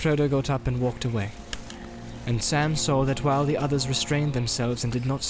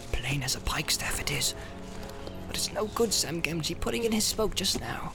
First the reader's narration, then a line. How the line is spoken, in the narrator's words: Sam, who had been watching his master with great concern, shook his head and muttered